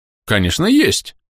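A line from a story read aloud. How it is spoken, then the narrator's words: Cheerful reply. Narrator (Russian): бодро ответил торговец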